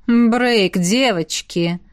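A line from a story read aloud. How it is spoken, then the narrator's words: Soft. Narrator (Russian): сказал он мягко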